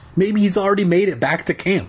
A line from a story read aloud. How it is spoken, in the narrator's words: Nat said excitedly